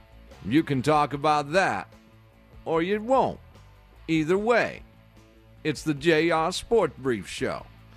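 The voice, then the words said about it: Impression of JR, downward sentence endings. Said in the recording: “I'm starting to perfect my JR ... my impersonation of him ... He likes to talk every sentence down. Well, everything ends in a downstroke.”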